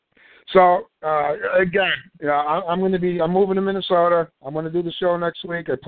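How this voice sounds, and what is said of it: Tired, worn-out voice. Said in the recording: “My voice is starting to go. We're 3.5 hours in here.”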